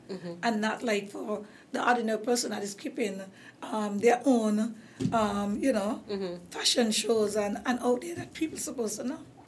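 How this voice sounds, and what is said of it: Hoarse, fading voice. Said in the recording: “You see, I'm losing my voice, right?”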